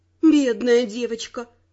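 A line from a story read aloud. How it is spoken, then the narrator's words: Sighing. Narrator (Russian): вздохнула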